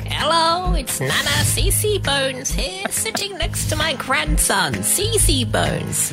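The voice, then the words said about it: Grandmother character voice. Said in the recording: “He's doing characters.”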